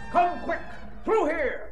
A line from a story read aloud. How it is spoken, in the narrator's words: Tamerlane shouts